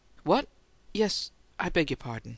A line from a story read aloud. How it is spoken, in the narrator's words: he stammered